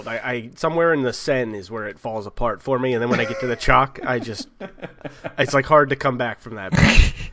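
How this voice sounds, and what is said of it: New Jersey accent. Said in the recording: “my horrible New Jersey accent”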